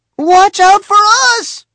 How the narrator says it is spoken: Eric shouted

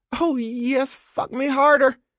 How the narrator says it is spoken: a familiar voice shriek

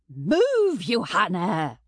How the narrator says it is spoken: spat

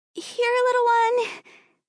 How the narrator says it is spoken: she called out in what she hoped was her gentlest voice

